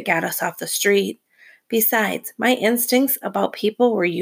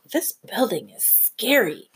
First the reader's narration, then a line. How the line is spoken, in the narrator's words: Esther whispered to me